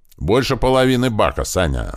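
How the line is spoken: Yelling at full volume. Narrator (Russian): заорал он во все горло

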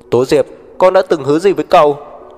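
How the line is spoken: Shouting. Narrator (Vietnamese): Tố Đồng hét

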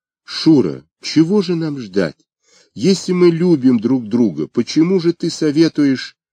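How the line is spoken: Tearful exclamation. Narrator (Russian): Сквозь слезы Оля воскликнула

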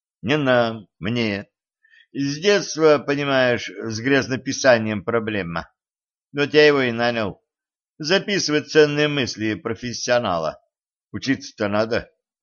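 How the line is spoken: Sighing. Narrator (Russian): вздохнул Денис

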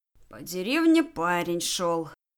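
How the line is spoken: Grumbling under breath. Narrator (Russian): ворчал себе под нос Джек

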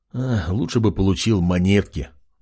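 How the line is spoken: Sighing king. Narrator (Russian): вздохнул король

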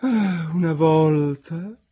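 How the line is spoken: Heavy sigh, tortoise. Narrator (Italian): disse finalmente con un sospirone la tartaruga d'Egitto

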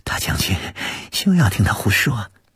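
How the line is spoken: Forced smile. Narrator (Chinese): 慧宁勉强一笑

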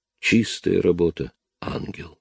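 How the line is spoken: Barely above a whisper. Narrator (Russian): Голос Чарли прозвучал намного тише, чем обычно, чуть громче шепота

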